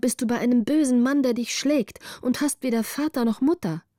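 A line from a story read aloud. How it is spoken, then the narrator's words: Call. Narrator (German): rief Greta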